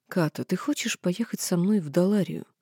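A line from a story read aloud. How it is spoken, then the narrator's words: Barely audible question. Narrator (Russian): едва слышно спросил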